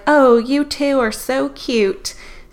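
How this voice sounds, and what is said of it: Put-on southern accent. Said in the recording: “that was like a southern accent thing.”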